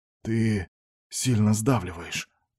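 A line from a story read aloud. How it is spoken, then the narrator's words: Muttered. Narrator (Russian): пробормотал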